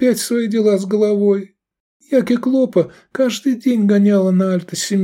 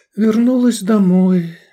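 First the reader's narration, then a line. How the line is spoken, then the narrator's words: Sighing girl. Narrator (Russian): вздохнула девушка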